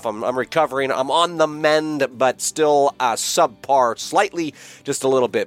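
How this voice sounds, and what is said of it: Slightly off, recovering sick voice. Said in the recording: “my voice is still a little bit off. ... So forgive me if I cough or sniffle”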